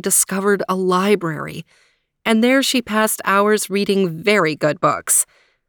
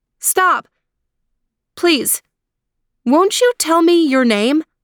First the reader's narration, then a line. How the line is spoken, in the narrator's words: she called out